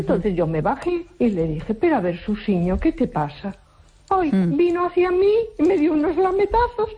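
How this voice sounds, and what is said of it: Galician Spanish accent. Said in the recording (Spanish): “Eres gallega y le hablas con ese acento”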